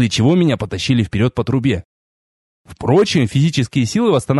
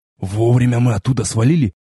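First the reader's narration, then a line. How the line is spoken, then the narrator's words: Relieved exhale. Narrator (Russian): выдохнул напарник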